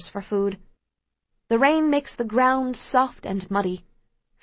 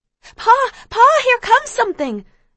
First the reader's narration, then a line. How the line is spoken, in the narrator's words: I scream excitedly